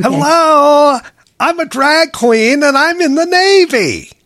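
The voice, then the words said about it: Over-the-top impression of a man. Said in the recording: “my best impression of the guy... This is how over the top the guy would be”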